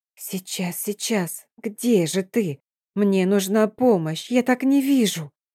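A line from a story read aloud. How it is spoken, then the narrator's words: Quiet muttering. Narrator (Russian): Тихое бормотание под нос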